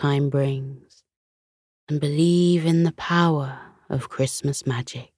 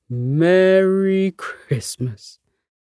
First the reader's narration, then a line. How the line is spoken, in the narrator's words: Santa chuckled contentedly